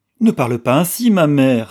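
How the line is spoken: Trembling girl's cry. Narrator (French): s'écria la jeune fille toute frémissante

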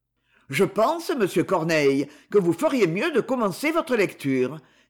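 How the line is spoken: Curt, dry. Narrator (French): dit le roi sèchement

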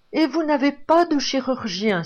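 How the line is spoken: Exclaiming. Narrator (French): s'écria Vanina

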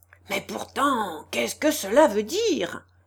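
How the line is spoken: Threatening exclamation. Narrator (French): s'écria-t-il d'une voix menaçante

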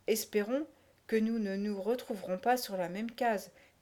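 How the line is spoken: Murmured. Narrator (French): murmura Tinky Winky

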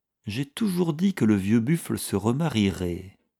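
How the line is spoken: Thoughtful murmur. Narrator (French): murmura-t-il, après environ une demi-heure de réflexion

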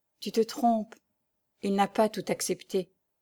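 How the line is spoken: Young girl murmuring. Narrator (French): murmura la jeune fille

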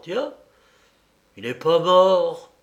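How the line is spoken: Exclaiming. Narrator (French): s'écria-t-il

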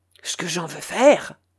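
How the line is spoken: Low voice, swearing. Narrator (French): répondit Argot à voix basse et entremêlant d'horribles jurons à tous ses propos

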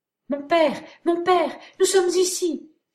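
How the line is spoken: Excited exclamation. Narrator (French): s'écria Alice dès qu'elle crut l'avoir reconnue

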